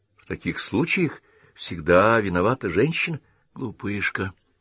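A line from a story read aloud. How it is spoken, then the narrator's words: Affectionate. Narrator (Russian): ласково произнес Дайкон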